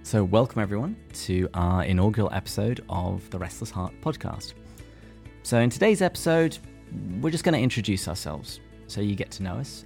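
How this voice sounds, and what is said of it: English accent. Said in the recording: “my accent betrays the fact that I'm not actually originally from the US ... I am from the great country of England”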